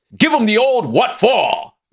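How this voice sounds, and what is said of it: Put-on posh British accent. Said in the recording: “I do a British accent ... My posh British”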